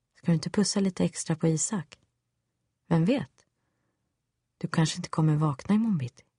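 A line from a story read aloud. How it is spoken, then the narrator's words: Smooth, devilish voice. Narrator (Swedish): mest djävulsk var han ändå när han med len röst sa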